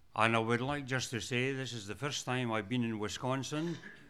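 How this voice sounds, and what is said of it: Scottish accent. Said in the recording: “my accent came from. It came from Scotland.”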